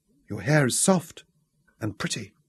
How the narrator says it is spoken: whispered

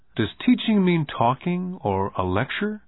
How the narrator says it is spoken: Rich Dad asked

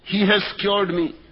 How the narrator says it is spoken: said Miss Rustifen

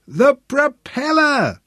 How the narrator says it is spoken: Sebastian shouted into his face

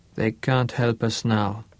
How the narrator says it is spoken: Boussier spoke softly

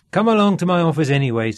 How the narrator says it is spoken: said Mr

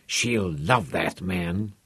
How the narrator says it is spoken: muttered

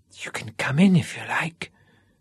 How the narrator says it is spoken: whispered, her mouth still against his

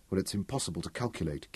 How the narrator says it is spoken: whispered

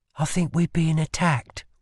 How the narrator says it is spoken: whispered Lila into the collar of his coat

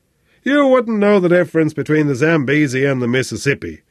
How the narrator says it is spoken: Flynn grunted impatiently

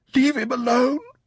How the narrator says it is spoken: she sobbed

